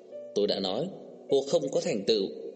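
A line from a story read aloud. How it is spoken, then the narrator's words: Angry female voice. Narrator (Vietnamese): Cô tức giận xanh mặt, tức giận nói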